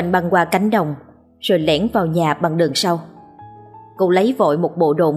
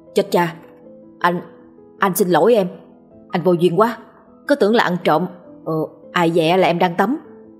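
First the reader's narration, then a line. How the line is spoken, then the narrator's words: Flustered hurried apology. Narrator (Vietnamese): Hào vội xin lỗi rối rít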